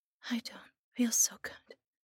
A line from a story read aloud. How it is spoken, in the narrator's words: whispered